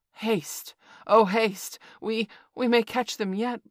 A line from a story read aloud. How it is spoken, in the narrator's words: Baloo panted